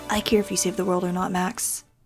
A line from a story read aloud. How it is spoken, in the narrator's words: Dylan said softly